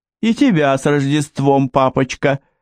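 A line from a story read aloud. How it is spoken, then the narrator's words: Laughing. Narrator (Russian): рассмеялась Патти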